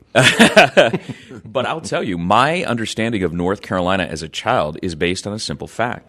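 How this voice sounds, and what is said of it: Southern Georgia accent. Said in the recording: “you can tell from my accent, I am not a native North Carolinian ... No, you're from Georgia.”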